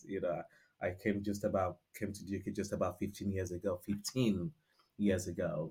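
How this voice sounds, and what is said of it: Nigerian accent. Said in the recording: “I'm super Nigerian. You know, can tell from my accent.”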